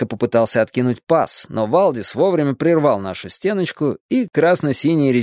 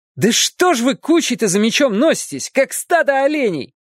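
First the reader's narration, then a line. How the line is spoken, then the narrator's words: Annoyed yell. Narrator (Russian): раздосадованно заорал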